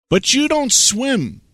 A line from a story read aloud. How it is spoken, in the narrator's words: the ducks exclaimed